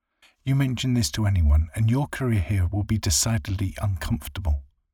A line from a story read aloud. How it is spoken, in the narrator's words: Susie said, her voice stern and stressed